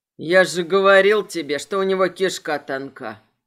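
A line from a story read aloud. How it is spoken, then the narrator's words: Deep bass voice. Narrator (Russian): пробасил Айвор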